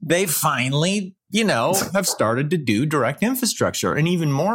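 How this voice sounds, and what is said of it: Usual voice. Nothing is said of it.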